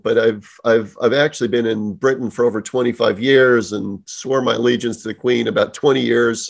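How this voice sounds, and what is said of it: American accent. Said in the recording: “you'll sense the American accent”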